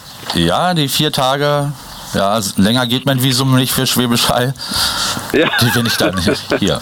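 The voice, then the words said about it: Berlin dialect. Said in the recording (German): “deine liebliche Stimme ... Dein nudeliger Berliner Dialekt”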